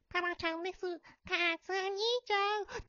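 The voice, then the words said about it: Imitates a cartoon child character's voice. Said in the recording (Japanese): “タラちゃんの声真似”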